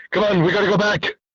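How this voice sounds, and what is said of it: Impression of Marty McFly. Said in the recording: “that was a good impression.”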